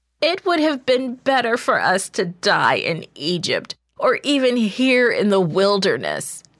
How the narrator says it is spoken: the people wailed

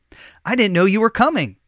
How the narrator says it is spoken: the boy said

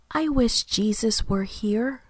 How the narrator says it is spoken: she said softly

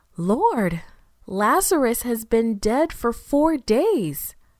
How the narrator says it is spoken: Martha exclaimed

